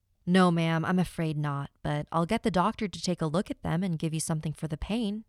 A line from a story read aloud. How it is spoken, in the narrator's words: he replied